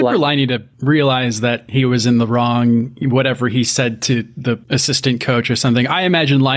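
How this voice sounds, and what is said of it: Usual voice. Nothing is said of it.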